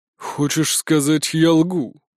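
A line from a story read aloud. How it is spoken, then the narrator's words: Menacing. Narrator (Russian): грозно нахмурился Николай VI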